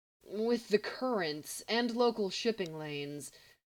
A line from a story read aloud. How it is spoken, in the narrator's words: he mumbled, then trailed off